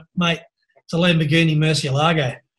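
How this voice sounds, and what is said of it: Broad ocker Australian accent. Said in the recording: “in my very ochre Aussie accent”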